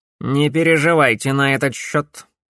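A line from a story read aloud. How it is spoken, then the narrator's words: Dry reply. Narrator (Russian): сухо ответил Корнелиус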